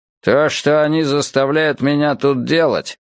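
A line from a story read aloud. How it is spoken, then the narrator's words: Grumbling. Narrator (Russian): проворчал Боудри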